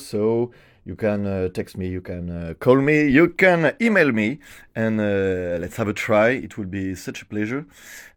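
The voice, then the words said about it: French-accented English. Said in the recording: “I'm a little fluent in English, but surely I have a French accent.”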